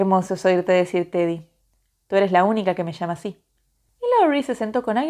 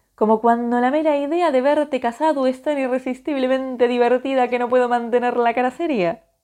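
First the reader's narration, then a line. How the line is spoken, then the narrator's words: Amused reply, laughing. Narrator (Spanish): contestó Joe, sonriéndole en la cara con un gesto tan contagioso que enseguida se estaba riendo de nuevo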